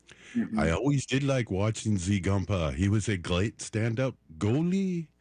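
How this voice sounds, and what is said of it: Put-on French-Canadian accent. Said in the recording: “accent, too... French-Canadian”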